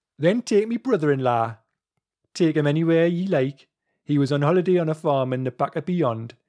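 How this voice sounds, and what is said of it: Put-on Geordie accent. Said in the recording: “would you like me to read it in my best Geordie accent? I think I should... this book is written in Geordie accent.”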